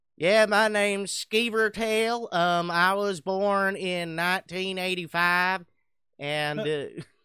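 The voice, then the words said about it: Exaggerated redneck character voice. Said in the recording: “super redneck”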